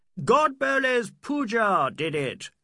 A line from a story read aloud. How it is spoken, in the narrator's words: cried the Englishman